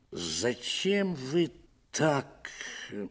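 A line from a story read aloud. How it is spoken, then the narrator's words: Hesitant, strained. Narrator (Russian): Около замялся, с трудом выдавил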